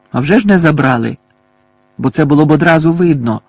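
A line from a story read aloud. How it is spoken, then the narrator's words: Angry retort. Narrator (Ukrainian): сердито кинув Гаррі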